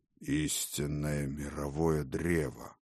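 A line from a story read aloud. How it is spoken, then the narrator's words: Unintelligible muttering. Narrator (Russian): пробормотал Один нечто непонятное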